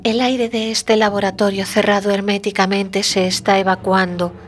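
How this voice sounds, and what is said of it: Innocent child's voice. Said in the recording (Spanish): “Con una inocente voz de niño”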